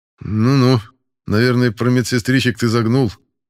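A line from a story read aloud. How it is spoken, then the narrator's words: Skeptical snort. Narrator (Russian): хмыкнул я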